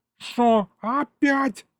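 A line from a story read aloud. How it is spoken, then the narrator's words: Yelled. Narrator (Russian): завопил Егорыч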